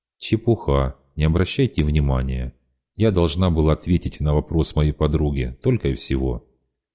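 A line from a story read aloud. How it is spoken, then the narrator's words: Very calm. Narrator (Russian): Очень спокойно она сказала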